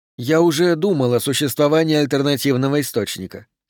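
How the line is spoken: Plain. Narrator (Russian): сказал Пендергаст

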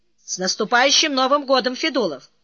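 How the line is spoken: Shout. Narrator (Russian): Он … крикнул

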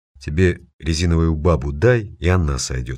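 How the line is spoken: Plain. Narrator (Russian): сказал Вишняк

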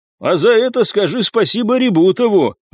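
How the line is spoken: Nervous laughter, lying down. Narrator (Russian): нервно расхохотался лежащий на спине Николай

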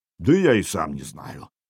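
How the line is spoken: Low booming voice. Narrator (Russian): прогудел

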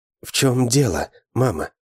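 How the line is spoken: Said softly. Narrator (Russian): мягко сказал я

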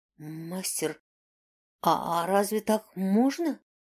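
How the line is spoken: Stammering question. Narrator (Russian): заикаясь, спросил Тьон

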